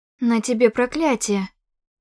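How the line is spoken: Agitated. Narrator (Russian): Взволнованно произнесла я

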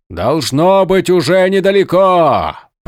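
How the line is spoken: Shouted. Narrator (Russian): прокричал Малфурион

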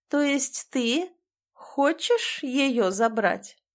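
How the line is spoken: Slow, clipped emphasis. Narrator (Russian): Чеканит медленно каждое слово, особенно выделяя

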